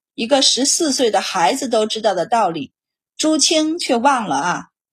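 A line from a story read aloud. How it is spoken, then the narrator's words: Sighing. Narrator (Chinese): 皇帝 叹息道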